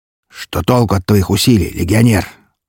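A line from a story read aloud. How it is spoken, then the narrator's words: Growling creature. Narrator (Russian): рыкнул меховик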